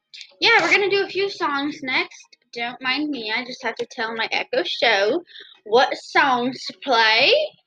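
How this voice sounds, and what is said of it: American country accent. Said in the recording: “Don't mind my country accent just coming out.”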